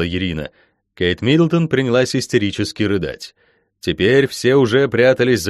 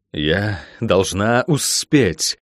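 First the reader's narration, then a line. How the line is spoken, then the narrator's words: Low furious growl. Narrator (Russian): Рычание, низкое, гневное, напитанное такой яростью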